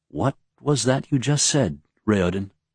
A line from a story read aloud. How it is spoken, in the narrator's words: Galladin finally asked in a quiet voice